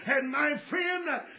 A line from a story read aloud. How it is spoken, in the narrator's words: he cried out